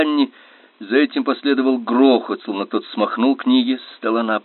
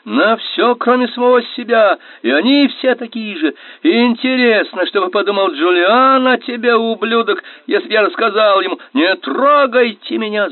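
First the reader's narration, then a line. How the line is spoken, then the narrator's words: Shrieking. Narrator (Russian): завизжал он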